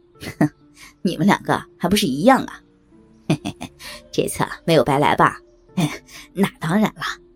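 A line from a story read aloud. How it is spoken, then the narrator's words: Sneering. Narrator (Chinese): 小伟冷笑一声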